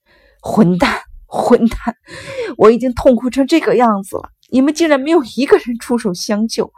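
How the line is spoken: Broken off by coughing. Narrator (Chinese): 又剧烈的咳嗽了起来

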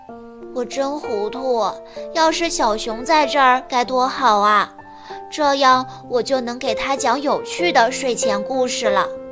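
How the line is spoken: Sighing. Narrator (Chinese): 他叹了口气

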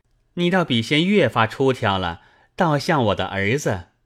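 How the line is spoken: Laughing. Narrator (Chinese): 宝玉笑道

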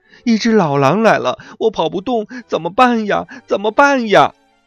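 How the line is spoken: Frightened little rabbit wailing. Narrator (Chinese): 跑得慢的和吓坏了的小兔子哇哇大哭

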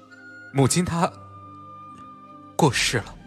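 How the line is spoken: Choked with tears. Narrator (Chinese): 声音哽咽

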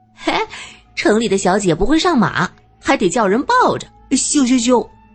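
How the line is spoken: Loud laughter. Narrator (Chinese): 卓玛则是大声笑

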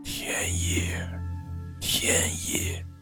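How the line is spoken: Pitying murmur. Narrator (Chinese): 陈师傅见他涕泪齐流，突然觉得他很可怜，喃喃地对着天花板叫了两声

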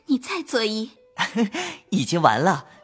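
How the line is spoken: Laughing. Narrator (Chinese): 袭人笑

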